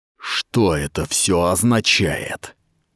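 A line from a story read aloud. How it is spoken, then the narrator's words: Hissed. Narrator (Russian): прошипел Сахал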